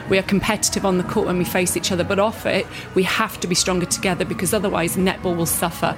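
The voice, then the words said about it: English accent. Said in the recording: “You can hear by my accent, I grew up in the English netball system.”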